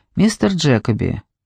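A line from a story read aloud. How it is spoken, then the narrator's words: Quiet but confident. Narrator (Russian): мисс Ли говорила тихо, но уверенно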